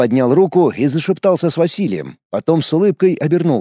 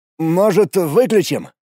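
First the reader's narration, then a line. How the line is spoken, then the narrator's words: Hesitant suggestion. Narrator (Russian): неуверенно предложил Матвей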